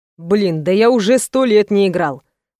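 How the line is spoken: Grunting. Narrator (Russian): хмыкнул Роман

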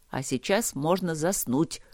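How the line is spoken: Grumble. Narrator (Russian): проворчал Трот

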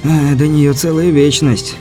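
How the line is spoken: Sighing. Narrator (Russian): Беляев вздохнул

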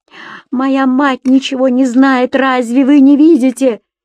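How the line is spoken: Furious young woman, English. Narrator (Russian): бешено воскликнула девушка по-английски

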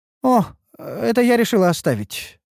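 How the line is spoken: Innocent-sounding reply. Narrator (Russian): откликнулась Ульданта невинным голосом

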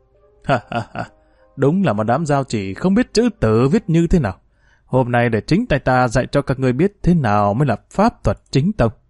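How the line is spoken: Loud mocking laughter. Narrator (Vietnamese): Diệp Tiêu cười lớn

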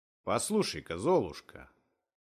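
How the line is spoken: Joking tone, host. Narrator (Russian): начал шутливым тоном хозяин дома

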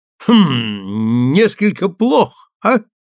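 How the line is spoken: Chuckle dying in throat. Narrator (Russian): Хихиканье замерло у него в горле

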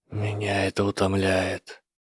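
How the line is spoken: Whisper. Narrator (Russian): прошептал профессор

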